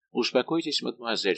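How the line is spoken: Plain. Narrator (Russian): сказал де Сент-Эньян

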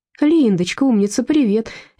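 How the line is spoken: Cheerful greeting. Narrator (Russian): весело поздоровалась Людмила

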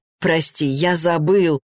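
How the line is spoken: Laughing. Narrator (Russian): рассмеялся Максим

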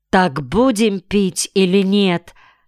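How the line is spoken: Menacing question. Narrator (Russian): грозно спросил Ринтен

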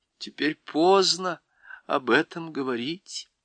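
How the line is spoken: Sad. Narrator (Russian): промолвил Фавн, грустно

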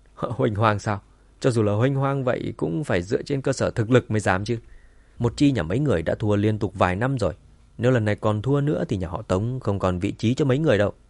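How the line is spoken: Loud laughing voice. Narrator (Vietnamese): Tống Hòa Đồng cười lớn

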